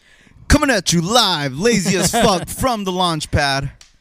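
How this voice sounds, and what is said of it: Radio DJ announcer voice. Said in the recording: “That's the radio DJ voice.”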